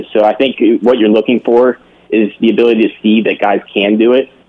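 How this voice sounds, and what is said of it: Pittsburgh accent. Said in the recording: “am I detecting a Pittsburgh kind of accent there? ... I'm thinking Pennsylvania.”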